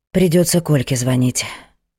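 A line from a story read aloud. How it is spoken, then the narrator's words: Sighing. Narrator (Russian): вздохнула Ада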